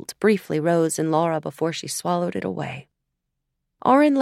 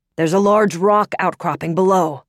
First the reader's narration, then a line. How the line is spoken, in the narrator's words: Auron shouted into her ear